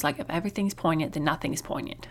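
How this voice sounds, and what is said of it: Put-on Australian accent. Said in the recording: “except she's Australian ... You like my accents?”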